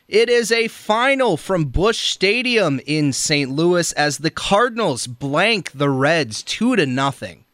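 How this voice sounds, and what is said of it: Impression of fellow broadcaster. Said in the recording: “let me do my impression of you”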